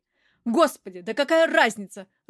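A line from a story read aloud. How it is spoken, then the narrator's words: Irritated. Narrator (Russian): раздраженно Стекольников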